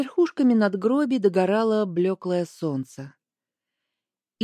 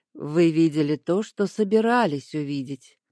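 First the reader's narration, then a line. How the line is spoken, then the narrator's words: Calm objection. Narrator (Russian): спокойно возразил Аскольд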